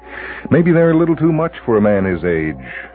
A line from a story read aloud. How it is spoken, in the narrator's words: she chuckles